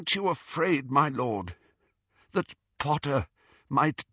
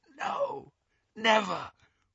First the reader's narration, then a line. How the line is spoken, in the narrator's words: whispered Malfoy